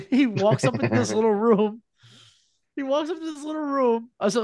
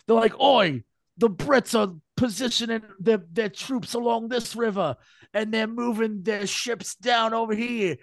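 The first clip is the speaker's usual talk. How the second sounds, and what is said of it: Put-on English accent. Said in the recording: “they've got English accents. So they're like, oi, the Brits. That's my English accent.”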